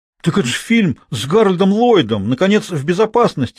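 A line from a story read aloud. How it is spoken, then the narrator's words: Exclamation. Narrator (Russian): воскликнула Изабель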